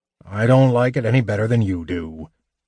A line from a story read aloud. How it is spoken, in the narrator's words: the dwarf growled